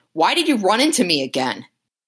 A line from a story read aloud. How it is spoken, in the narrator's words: she yells at him, saying